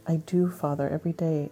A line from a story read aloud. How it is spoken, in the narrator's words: sighed